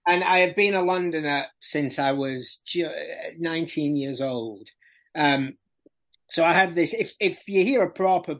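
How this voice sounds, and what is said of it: Strident Barnsley accent. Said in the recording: “apparently I have quite a strident Barnsley accent”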